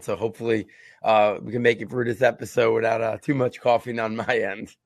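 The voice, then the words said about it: Scratchy, slightly hoarse voice. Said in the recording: “my voice is uh, a little scratchy, a little bit coughing going on”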